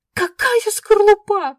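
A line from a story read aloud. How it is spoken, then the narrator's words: Shrieking. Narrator (Russian): взвизгнула я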